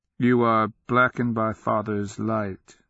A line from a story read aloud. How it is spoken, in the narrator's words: the adolescent said, his voice straying across resonances only her husband used